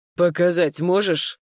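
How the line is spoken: Growled. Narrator (Russian): рыкнул Матвей

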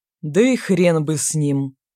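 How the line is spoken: Bass answer. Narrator (Russian): ответили басом

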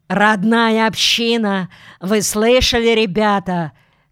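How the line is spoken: Shout. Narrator (Russian): крикнул старший солдатам

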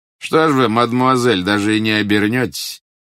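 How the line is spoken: Mocking. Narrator (Russian): насмешливо спросил Глеб Георгиевич

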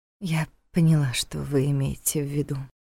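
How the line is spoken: Quiet. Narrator (Russian): тихо сказала она

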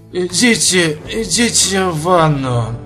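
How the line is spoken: Hoarse mutter. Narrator (Russian): сипло пробормотал он

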